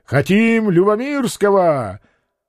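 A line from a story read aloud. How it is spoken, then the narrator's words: Crowd of delegates shouting. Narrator (Russian): 2/3 делегатов Сейма, стуча саблями, прокричали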